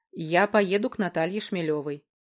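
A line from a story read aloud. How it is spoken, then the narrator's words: Plain. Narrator (Russian): ответил Федор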